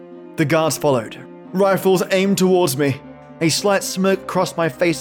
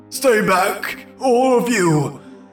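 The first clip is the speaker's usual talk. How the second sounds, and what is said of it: Hoarse screaming. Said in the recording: “I screamed, my voice becoming hoarse.”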